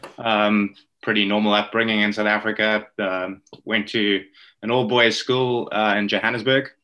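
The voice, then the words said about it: South African accent. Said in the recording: “I'm native South African, if uh, the accent doesn't give it away.”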